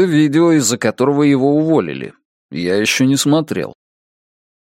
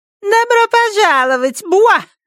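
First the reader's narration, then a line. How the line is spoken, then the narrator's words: Squeaky voice. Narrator (Russian): начал Уолли писклявым голосом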